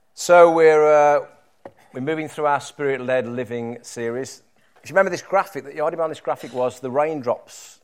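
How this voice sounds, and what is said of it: Low, congested voice with a cold. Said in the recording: “I've got a little bit of a cold, so I'll be in the low registers today. ... Hopefully you'll be able to hear me still.”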